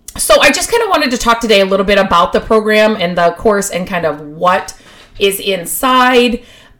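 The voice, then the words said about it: Hoarse, froggy throat. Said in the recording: “I have a frog in my throat.”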